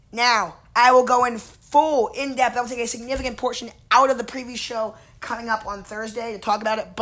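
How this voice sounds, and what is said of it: Worn, strained voice. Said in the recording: “my voice is like this. I was there. And if you guys listen to my show, you guys know I like to yell. And, well, I like to yell at Ravens games too, so. Sorry for my voice sounding like this.”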